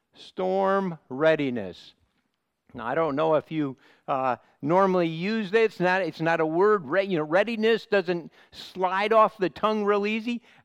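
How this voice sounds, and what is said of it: American Midwestern accent. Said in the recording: “my American accent ... I have a bit of a Midwestern accent”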